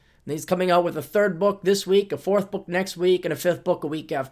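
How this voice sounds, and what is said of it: Usual voice. Nothing is said of it.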